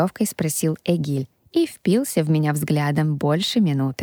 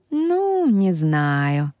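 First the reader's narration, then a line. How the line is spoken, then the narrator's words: Drawled. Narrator (Russian): протянул Эгиль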